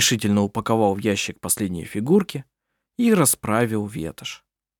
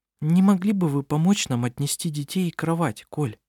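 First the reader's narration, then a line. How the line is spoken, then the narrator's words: Timid question. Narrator (Russian): Робко спросила она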